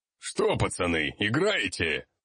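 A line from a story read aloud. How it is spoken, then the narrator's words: Good-natured deep bass. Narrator (Russian): добродушно пробасил мой сопровождающий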